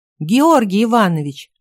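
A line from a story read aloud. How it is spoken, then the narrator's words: Joyful exclamation. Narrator (Russian): радостно воскликнула Катя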